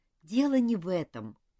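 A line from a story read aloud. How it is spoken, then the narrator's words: Sighing. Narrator (Russian): вздохнула Нора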